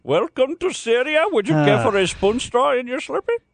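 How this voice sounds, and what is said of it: Put-on South Asian-style accent. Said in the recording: “That's the same voice you use for people from India and people from Indonesia and people from Saudi Arabia. ... what exactly is an Indonesian accent then? ... I think that accent is only effective on The Simpsons”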